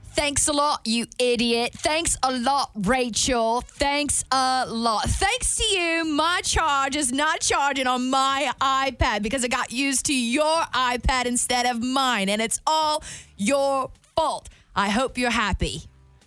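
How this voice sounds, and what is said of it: Fairly good put-on British accent. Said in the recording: “doing a British accent. Not bad. ... pretty good. That was like the best British accent I think we've ever heard you do.”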